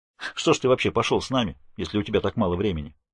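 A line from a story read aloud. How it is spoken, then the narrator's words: Sharp question. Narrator (Russian): резко спрашивает Иджи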